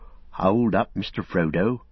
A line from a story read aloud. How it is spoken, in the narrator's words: muttered Sam in Frodo's ear